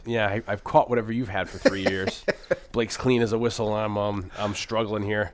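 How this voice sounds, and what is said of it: Sick-sounding voice. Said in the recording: “I'm sick, getting over, so you might...”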